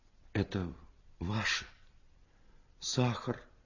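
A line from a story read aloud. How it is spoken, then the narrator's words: Quiet. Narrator (Russian): Тихо сказала она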